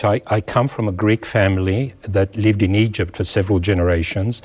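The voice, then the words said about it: Australian accent. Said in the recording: “you don't have much of an Egyptian accent. ... No, it's more Australian, down under.”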